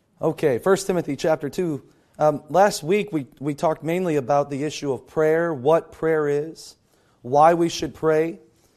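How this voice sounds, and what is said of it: Low, strained, failing voice. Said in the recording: “my voice is gone. And if I talk real low, it'll be okay. But that's not my normal voice ... every time I get excited, then my voice starts cracking”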